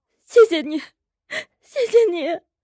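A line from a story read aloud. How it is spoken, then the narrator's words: Tearful, grateful, smiling. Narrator (Chinese): 女人吸了吸鼻子，脸上泪痕未干，嘴角已扬起笑意，连声道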